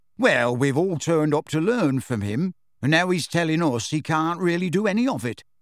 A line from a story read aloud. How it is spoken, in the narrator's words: said